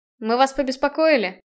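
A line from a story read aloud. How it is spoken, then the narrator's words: Grim smirk. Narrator (Russian): Мрачно усмехнулся Намад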